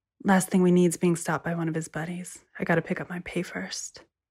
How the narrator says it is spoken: she said quietly

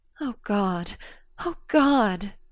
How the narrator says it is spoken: she sobbed

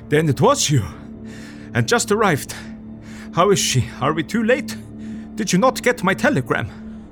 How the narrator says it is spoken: he gasped out

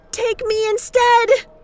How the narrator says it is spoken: Then she screamed

